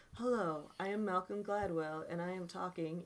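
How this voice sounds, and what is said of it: Calm, chill imitated voice. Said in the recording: “in a very chill voice. It's also Canadian. I have a Canadian accent, eh? ... I only talk like I am in the therapist's office”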